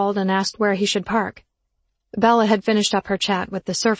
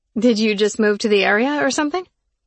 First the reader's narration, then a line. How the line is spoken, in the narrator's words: He laughed